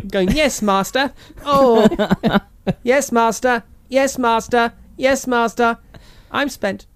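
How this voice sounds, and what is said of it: Imitating K9's robot voice. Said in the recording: “It sounded more like K9 to me. ... getting him to do the K9 voice.”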